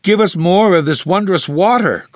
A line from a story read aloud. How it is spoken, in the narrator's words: cried they eagerly